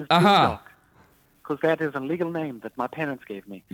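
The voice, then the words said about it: Accent shifting between British and Australian. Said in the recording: “That accent ... kind of shifted from being British to Australian to British.”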